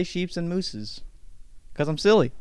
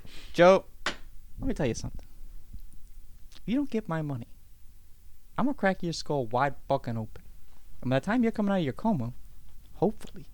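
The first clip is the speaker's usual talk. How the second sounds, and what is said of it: Put-on accent quoting movie line. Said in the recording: “You put on an accent right now.”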